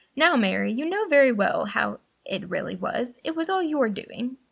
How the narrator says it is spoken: Charles laughed again and said

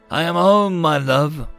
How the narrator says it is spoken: Buxton said, his voice rough, raspy, but still his

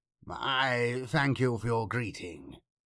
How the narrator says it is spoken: he replied

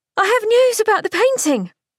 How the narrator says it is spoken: Unable to keep her exuberance to herself, she yelled out

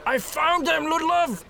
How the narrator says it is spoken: Gustav shouted

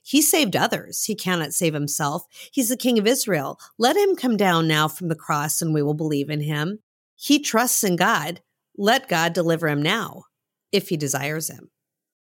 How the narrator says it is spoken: the chief priests, the scribes, and the elders mocked Jesus by saying

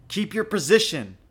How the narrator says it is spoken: she yelled through the smoke billowing from her throat

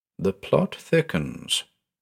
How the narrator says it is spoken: I muttered

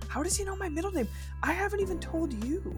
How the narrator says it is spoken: whispered

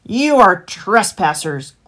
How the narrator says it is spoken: growled the fox

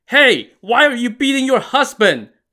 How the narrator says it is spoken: the chieftain exclaimed

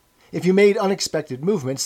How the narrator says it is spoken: they yelled at you from the telescreen

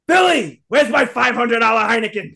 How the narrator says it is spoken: Joey yells out

